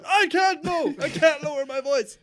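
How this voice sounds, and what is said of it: Shouting loudly. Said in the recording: “just shout all the time ... can you please lower your voice?”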